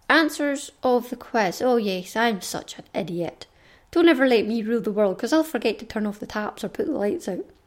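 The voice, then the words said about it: Scottish accent. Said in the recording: “another Scottish accent, and this one you might be a bit more familiar with, because they're my accent”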